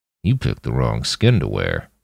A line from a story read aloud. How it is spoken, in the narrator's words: Roland muttered at him